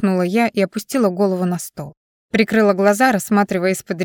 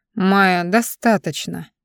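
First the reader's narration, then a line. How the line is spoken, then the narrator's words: Curt, dry interruption. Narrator (Russian): сухо оборвал меня Дайрин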